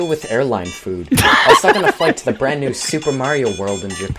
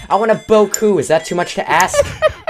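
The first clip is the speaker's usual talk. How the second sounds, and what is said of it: Screaming, yelling angrily. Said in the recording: “I'm screaming and yelling”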